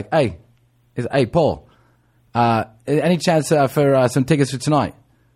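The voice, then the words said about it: Poor put-on English accent. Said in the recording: “English accent's horrible”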